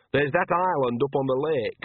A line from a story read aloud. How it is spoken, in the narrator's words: she went on, raising her voice